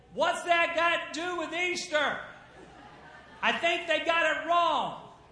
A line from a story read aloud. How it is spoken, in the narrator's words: she hollered back and said